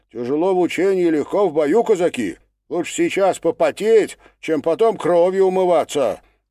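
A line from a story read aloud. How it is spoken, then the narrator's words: Loud reply. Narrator (Russian): Никулин громко ответил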